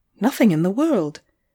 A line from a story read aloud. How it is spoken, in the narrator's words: I answered cheerfully